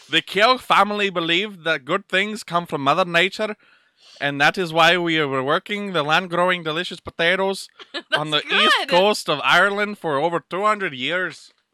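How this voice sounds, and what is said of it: Put-on Irish accent. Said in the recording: “I'll be speaking an Irish accent ... let me read it in Irish”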